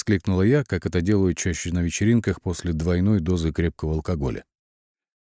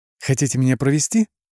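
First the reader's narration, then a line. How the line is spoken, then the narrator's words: Squeaked. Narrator (Russian): пискнула я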